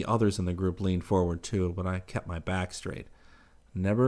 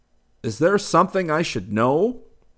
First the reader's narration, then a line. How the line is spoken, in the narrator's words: Gilberto leaned closer to me and shouted above the music